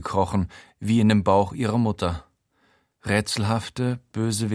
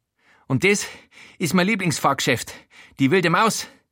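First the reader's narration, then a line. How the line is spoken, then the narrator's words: Panting, out of breath. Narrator (German): keucht Joe Walter, außer Atem von dem Rundgang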